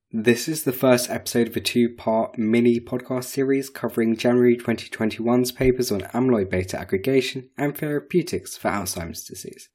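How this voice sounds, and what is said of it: Lost voice, whispery hoarse speech. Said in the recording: “I've lost my voice, so sorry if this sounds like some weird sort of ASMR.”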